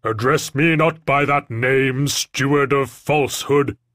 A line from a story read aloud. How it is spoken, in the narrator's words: boomed the man